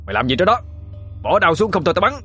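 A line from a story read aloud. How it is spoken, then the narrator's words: Soldier shouting. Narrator (Vietnamese): tiếng lính tập quát lên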